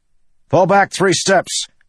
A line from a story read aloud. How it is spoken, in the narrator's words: Adolin shouted to his men